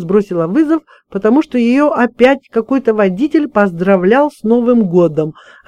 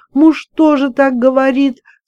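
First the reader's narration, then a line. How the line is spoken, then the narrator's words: Sobbing into phone. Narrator (Russian): всхлипнула в трубку Маша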